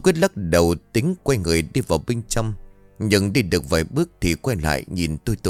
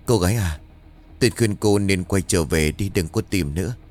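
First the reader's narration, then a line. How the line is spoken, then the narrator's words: Sighing old man. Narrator (Vietnamese): Ông lão thở dài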